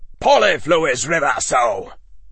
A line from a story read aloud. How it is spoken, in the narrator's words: the interrogator spat